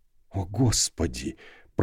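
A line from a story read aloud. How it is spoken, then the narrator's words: Whisper. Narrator (Russian): прошептал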